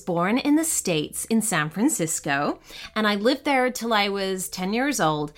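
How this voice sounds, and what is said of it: Canadian accent with British touches. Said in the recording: “you might hear some Canadian in my accent and a little British in there too”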